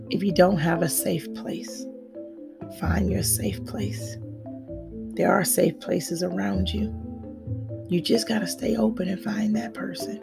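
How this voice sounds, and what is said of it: Raspy voice. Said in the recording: “I'm talkative, even with a raspy voice.”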